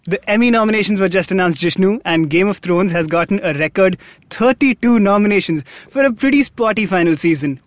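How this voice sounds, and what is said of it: Announcer voice. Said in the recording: “I don't know why I'm doing this announcer voice.”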